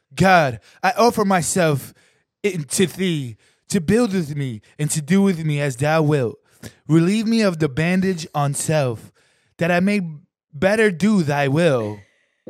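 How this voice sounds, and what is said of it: Mock Thor-style character accent. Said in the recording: “I'm going to do this in Thor accent.”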